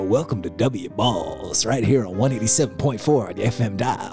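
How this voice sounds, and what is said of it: Smooth radio DJ voice. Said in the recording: “smooth, like, radio voice”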